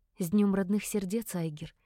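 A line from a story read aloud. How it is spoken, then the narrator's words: Breathed out. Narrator (Russian): выдохнула я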